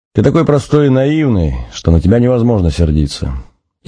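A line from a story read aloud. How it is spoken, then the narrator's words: After laughing. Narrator (Russian): Отсмеявшись, Надя сказала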